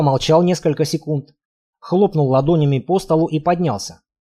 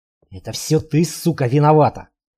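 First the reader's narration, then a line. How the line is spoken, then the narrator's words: Husband hissing. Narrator (Russian): прошипел ее муж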